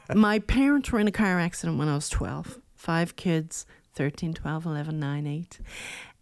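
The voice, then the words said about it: Rural Newfoundland accent. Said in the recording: “my childhood in rural Newfoundland, in case you didn't detect that accent.”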